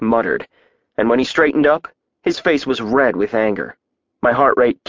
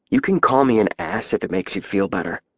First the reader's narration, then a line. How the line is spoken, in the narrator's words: I said in a low voice